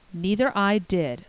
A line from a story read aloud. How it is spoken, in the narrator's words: avowed Davy solemnly